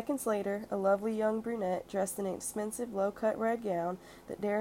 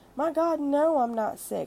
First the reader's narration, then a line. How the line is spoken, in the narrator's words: I exclaimed